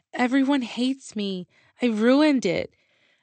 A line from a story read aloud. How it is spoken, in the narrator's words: face planted in the palms of my hands and I cried